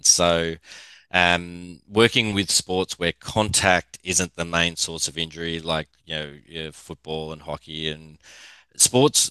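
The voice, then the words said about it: Australian English accent. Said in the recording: “with the accent, I'm from Australia”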